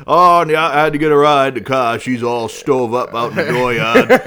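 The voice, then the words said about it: Put-on Maine accent. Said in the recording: “how would you say that in Maine?”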